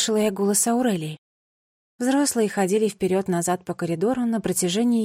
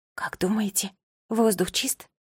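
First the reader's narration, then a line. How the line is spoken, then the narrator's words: Whispered. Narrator (Russian): прошептала я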